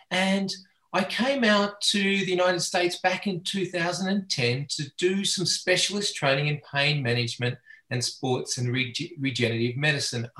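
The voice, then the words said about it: Australian accent. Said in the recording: “I have a funny accent. ... I'm Australian by birth and education.”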